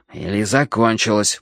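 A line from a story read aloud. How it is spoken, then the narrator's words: Mutter. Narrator (Russian): буркнул я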